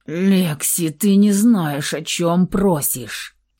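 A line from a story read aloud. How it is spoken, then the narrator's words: Groan. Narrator (Russian): простонал Михаил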